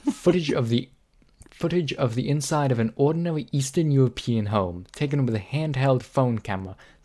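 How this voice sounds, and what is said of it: Deliberately bad Russian accent. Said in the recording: “a really bad Russian accent”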